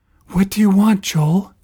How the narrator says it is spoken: panted

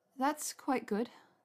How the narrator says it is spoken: she said in a wobbling voice

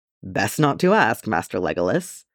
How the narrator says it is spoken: laughed Éomer

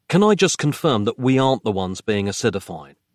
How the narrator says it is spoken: Nick asked

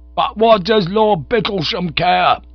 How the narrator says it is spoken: shouted Bingo

